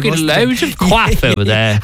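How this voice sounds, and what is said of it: Posh old-money English accent. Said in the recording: “old England or English people would use to old money ... Your impression was actually very good. ... no offense to anyone English out there.”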